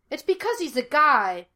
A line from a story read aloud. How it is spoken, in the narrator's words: Gus shouted